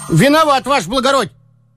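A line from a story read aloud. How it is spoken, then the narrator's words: Shout. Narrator (Russian): крикнул денщик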